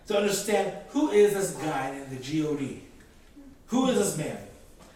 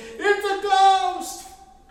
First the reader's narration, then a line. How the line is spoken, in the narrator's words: they cried out in fear